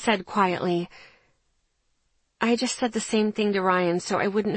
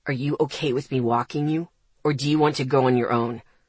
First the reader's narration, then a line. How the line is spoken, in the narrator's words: He asked, his voice tense